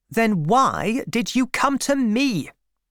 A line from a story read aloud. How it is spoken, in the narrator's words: said Bathsheba angrily